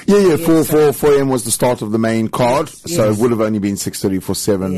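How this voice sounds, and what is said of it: Strained, worn-out voice. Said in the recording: “my voice is from screaming”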